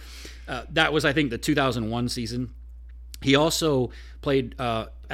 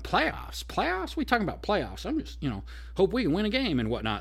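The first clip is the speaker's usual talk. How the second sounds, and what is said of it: Imitates another person's voice. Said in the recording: “that kind of famous video clip of him going ... was that a decent impression?”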